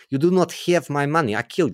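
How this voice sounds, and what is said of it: Put-on Russian accent. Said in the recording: “should I do the accent? Is it racist for me to do the accent? ... I think you can still do Russian ... I've got to do Malkovich and Rounders”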